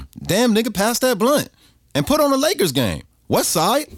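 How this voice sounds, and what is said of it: Put-on L.A. street accent. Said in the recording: “the American accent is much better for the street credibility ... How did you master that L.A. accent like that? ... this accent ... you sound just like my son's barber”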